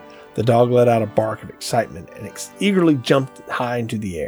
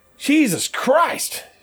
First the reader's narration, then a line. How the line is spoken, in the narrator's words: Seamus exclaimed